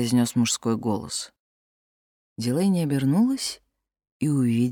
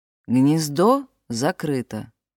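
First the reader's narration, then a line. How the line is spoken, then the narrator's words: Calm. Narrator (Russian): спокойно проговорил Габриэль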